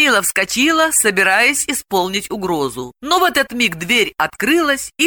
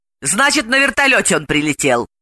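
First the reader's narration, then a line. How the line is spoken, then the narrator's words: Furious bark. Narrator (Russian): рявкнула Далила и, в ярости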